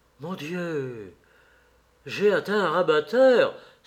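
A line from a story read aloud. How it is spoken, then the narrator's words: Exclaiming. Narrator (French): s'exclama Sir Geoffrey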